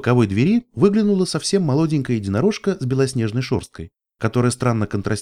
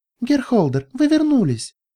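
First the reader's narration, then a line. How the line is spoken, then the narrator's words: Exclaiming. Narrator (Russian): воскликнула она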